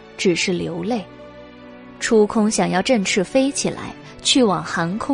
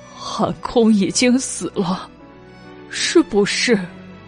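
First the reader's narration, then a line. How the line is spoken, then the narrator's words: Choked sobbing. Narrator (Chinese): 哽咽着道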